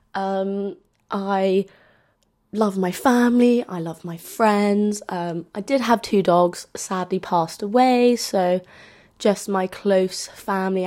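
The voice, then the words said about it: London English accent. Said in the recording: “as you can tell from my accent, I'm from London”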